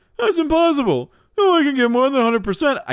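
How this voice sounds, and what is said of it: Poor Homer Simpson cartoon impression. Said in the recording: “Cue Homer Simpson voice. ... I can't do him very well. ... that terrible impersonation,”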